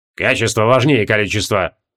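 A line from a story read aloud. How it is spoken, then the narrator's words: Sullen mutter. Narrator (Russian): угрюмо буркнул Креол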